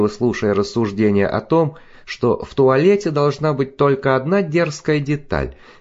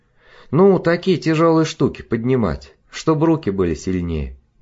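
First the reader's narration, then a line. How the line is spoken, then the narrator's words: Sighing. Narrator (Russian): вздохнула Жанна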